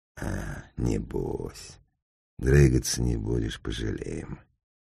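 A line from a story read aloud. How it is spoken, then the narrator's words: Lazy. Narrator (Russian): Сало ему лениво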